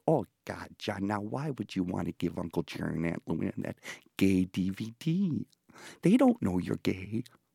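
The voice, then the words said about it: Fargo-style accent imitating mother. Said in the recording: “My mother, by the way, was the dialect coach on the movie Fargo.”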